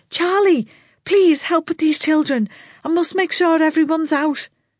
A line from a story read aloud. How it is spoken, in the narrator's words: she shouted to someone